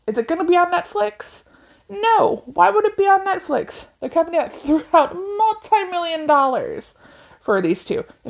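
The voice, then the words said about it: Loud, raised yelling voice. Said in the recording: “I'm yelling ... I get very loud ... If I'm raising my voice.”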